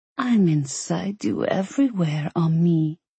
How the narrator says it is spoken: she purred

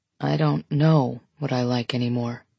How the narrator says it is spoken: he says quietly

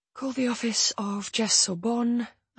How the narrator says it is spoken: I whisper

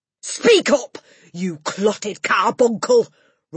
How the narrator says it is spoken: roared the Trunchbull

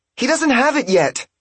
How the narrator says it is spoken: Myron cried

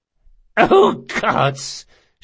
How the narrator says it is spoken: she gasped

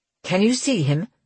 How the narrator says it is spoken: Grant asked anxiously

